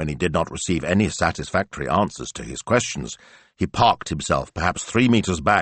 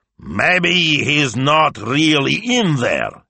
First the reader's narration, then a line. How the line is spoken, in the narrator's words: he bellowed